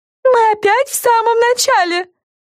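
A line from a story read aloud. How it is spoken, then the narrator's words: Indignant shout. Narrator (Russian): возмущенно закричала Фрэн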